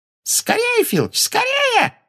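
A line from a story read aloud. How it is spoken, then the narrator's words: Shrill squeal. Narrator (Russian): взвизгнула Амбридж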